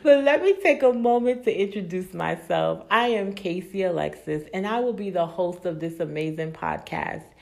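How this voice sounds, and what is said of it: Excited, energetic voice. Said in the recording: “I am so excited, and I know you all can tell by my voice”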